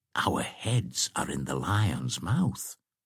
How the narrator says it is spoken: said Wamba in a whisper to Girth

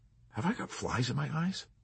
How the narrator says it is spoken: he asked hesitantly

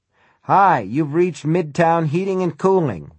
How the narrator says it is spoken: Willie Shearman says

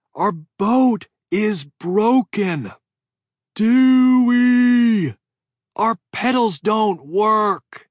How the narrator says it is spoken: cupped my hands around my mouth and yelled

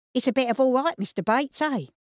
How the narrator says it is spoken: Pleasantly surprised at the inside of the building, Cyril called out

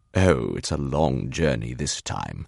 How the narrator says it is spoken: Etienne will say in an entirely new voice, smooth, velvety, a conductor's drawl

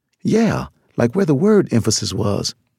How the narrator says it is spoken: Johnson said

